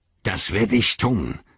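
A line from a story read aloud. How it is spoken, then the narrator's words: Angry speech. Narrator (German): sagte Chagrat wütend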